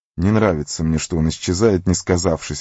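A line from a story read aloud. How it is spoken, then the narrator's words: Grumbling. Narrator (Russian): ворчал Сэм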